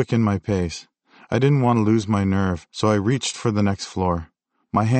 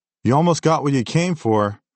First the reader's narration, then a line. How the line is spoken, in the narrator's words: she shouted